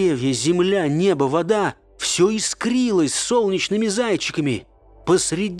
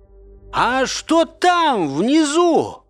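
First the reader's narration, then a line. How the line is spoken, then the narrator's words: Shouting into ear. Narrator (Russian): прокричал я в ухо Феники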